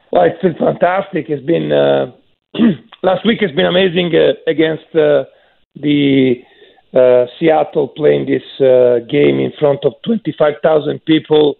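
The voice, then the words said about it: Slightly worn, not fully recovered voice. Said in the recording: “You can tell from my voice, it's still a little bit not 100%.”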